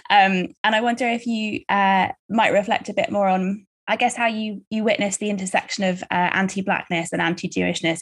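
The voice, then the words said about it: Non-American, London accent. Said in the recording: “You can probably tell from my accent that I'm not from the States, I'm in London.”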